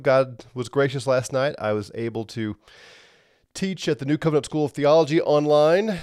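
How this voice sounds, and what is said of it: Sick, under-the-weather voice. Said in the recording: “as you can tell in my voice, I still have something ... didn't cough and snort too much”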